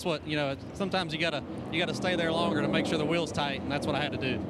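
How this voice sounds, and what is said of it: Rowan County North Carolina accent. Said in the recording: “I think he's from Rowan County, if you can't tell by the accent.”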